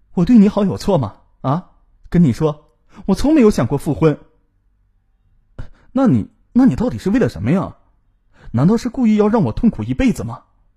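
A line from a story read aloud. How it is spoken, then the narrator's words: Angry. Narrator (Chinese): 这句话戳痛了冯雅丽的心，她愤怒的说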